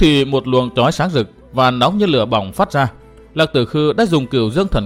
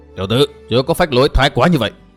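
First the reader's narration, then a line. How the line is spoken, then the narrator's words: Loud shout. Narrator (Vietnamese): Hắn hét to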